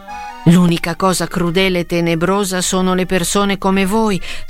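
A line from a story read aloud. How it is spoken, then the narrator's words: Shouting. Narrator (Italian): stava gridando Quasimodo a Frollo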